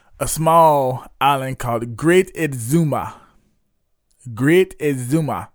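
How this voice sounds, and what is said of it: Put-on Caribbean island accent. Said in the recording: “I said it in my island voice.”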